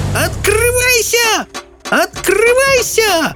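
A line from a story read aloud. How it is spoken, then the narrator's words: Screaming woman. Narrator (Russian): завопила она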